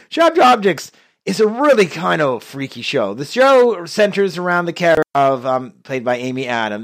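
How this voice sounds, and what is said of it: Sick, congested-sounding voice. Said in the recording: “You'll excuse my voice. I'm just recovering from a cold... So if it doesn't sound totally me, just keep that in mind.”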